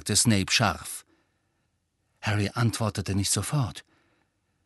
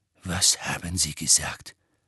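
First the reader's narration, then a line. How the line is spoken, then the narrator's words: Quiet unsettled question. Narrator (German): fragte leise, verunsichert war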